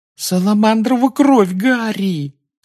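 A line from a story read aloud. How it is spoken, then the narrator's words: Exasperated groan. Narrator (Russian): застонала Гермиона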